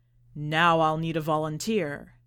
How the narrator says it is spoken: the magician said, through the booming speakers

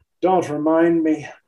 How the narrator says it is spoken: groaned Daniela

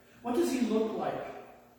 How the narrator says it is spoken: he asked

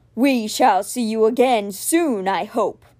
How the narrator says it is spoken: it rumbled

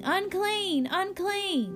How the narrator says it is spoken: yelling

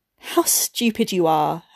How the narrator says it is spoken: her husband cried

